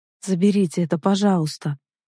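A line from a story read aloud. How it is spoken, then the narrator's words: Tired. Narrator (Russian): устало произнесла я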